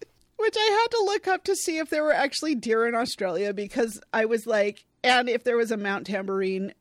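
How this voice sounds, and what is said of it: Usual voice. Nothing is said of it.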